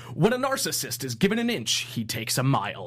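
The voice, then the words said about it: Movie trailer announcer voice. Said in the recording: “That was the best movie announcer voice I've ever heard. ... In a world.”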